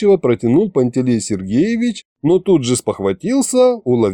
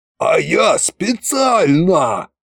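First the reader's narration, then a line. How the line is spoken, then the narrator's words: Yelling. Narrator (Russian): завопил Кощей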